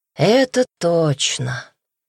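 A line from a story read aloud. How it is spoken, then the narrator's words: Drawling. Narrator (Russian): протянул Даня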